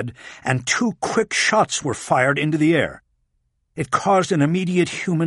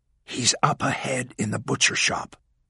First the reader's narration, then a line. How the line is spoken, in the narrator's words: whispered to Walling